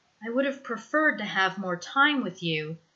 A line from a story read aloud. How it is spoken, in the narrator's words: Peter murmurs